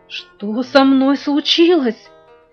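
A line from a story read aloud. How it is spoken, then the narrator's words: Trembling question. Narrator (Russian): дрожащим голосом спросил Витя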